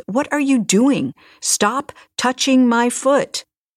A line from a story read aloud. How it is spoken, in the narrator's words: yelled